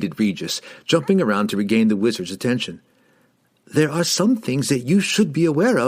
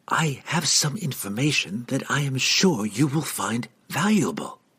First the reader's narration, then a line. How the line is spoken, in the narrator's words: the halfling said quietly